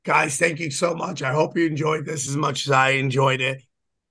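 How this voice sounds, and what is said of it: Strained, unwell-sounding voice. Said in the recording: “Sorry about my voice again. Hopefully it'll be better by next week.”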